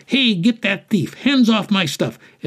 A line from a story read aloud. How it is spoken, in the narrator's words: vendors yelled